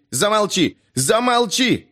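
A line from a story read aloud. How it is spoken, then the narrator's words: Sudden shout. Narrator (Russian): неожиданно закричал Вен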